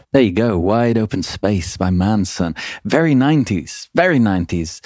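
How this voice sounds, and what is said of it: British accent, dropped T's. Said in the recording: “That's hard to say with a British accent where you don't even say T's.”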